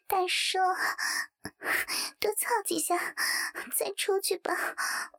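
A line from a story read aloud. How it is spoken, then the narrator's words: Breathless languid panting. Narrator (Chinese): 明明喘息着，懒洋洋地娇喘道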